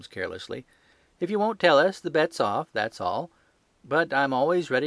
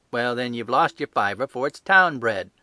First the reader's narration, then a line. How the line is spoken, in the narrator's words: snapped the salesman